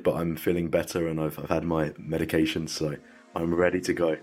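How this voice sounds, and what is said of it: Congested voice from a cold. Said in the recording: “I've got a bit of a cold ... My voice doesn't normally sound like this”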